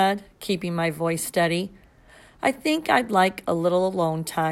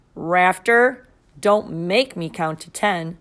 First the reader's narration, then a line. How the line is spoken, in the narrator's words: she said, her voice firm